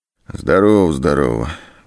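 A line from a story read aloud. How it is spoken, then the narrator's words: Muffled male voice. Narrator (Russian): глухим голосом ответил мужчина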